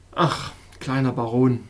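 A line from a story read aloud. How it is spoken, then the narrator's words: Wise doctor, sighing. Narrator (German): fuhr der weise Doktor seufzend fort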